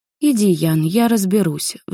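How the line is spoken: Sigh. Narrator (Russian): вздохнула я

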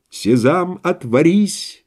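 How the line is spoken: Plain. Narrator (Russian): ответил мой спутник

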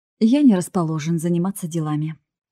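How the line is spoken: Plain. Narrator (Russian): ответил тот

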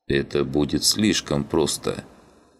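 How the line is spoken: Grim. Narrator (Russian): мрачно проговорил он

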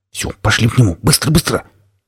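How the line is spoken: Urgent near-hiss. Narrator (Russian): практически прошипел предводитель молодых пиратов

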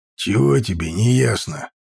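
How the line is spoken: Rather rude. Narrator (Russian): ответил он довольно грубо

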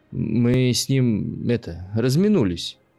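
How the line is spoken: Forced out with effort. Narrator (Russian): через силу выдавил Макс

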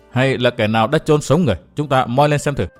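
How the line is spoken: Muttered. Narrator (Vietnamese): Chàng lầm bầm

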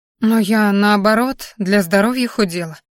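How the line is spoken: Confused mutter. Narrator (Russian): растерянно пробормотала пациентка

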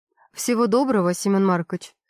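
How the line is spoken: Cold smiling tone. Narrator (Russian): Холодно улыбается

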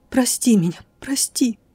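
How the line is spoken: Whisper through choking sobs. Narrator (Russian): сквозь душившие меня рыдания несколько раз еще прошептала

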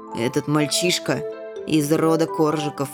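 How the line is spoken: Gloomy mutter. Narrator (Russian): мрачно буркнул

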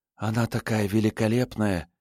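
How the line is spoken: Soft whisper. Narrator (Russian): тихо прошептала Мару

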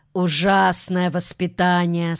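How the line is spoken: Plain. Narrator (Russian): сказала Лиля

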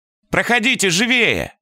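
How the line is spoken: Shout, small man. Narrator (Russian): крикнул человечек

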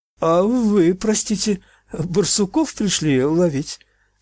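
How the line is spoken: Timid breaking voice. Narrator (Russian): спросил он, набравшись храбрости, срывающимся ровким голосом

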